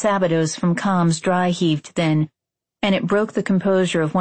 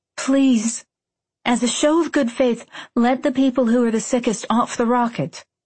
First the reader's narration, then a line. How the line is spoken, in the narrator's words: I begged